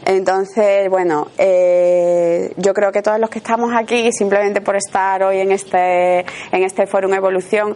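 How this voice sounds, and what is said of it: Sevillian Andalusian Spanish accent. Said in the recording (Spanish): “yo soy sevillana y entonces a lo mejor hay alguna palabra que pronuncio que me puede corregir ella porque, bueno, es una característica de, nuestra, de nuestro acento”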